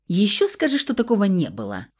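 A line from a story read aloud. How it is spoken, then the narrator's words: Snort. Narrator (Russian): фыркнула я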